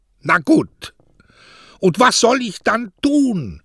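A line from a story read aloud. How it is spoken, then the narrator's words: Shouted. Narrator (German): schrie Mario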